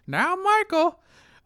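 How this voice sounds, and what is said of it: Bad Jiminy Cricket cartoon voice. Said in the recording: “worst Jiminy Cricket impression ever”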